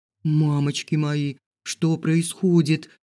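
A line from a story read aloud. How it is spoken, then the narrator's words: Silent inner groan. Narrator (Russian): застонала про себя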